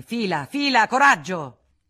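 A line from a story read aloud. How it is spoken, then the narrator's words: Shouted. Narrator (Italian): Federico gridò al postiglione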